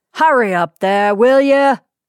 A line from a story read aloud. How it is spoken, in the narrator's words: growled the black brows